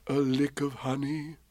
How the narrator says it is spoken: murmured Bear to himself

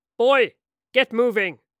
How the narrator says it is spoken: He barked

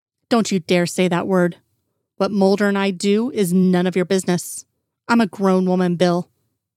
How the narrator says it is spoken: snorted

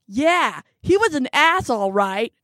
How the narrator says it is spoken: Margot shouts

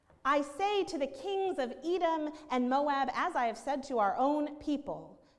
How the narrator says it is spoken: Jeremiah called out

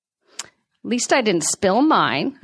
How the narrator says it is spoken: I said

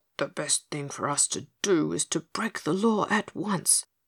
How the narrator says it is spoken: he whispered mournfully to Dorothy

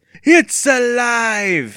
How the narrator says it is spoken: Evan screamed playfully

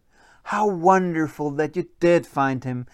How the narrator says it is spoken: cried Philibob's mom

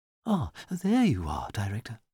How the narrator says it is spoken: said Miss Kettle in her fluting, breathless voice

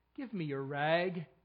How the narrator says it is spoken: said gently

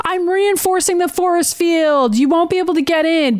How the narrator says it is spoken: shouting at Cameron Hodge

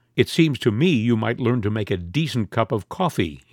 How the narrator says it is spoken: said icily

